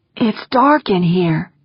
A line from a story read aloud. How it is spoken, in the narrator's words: she said, her voice slightly muffled